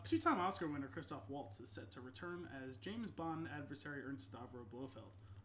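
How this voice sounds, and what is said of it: Newscaster-style reading voice. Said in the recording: “I started reading this in newscaster voice.”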